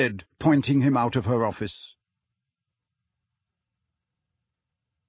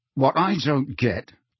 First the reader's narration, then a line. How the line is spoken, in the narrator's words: said Harry through clenched teeth, his hands were shaking too much